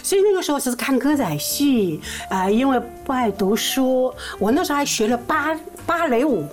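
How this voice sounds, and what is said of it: Mandarin accent sounding mainland Chinese. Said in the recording (Chinese): “很多观众朋友啊，都以为我是大陆过来的。其实因为听我这个口音吧”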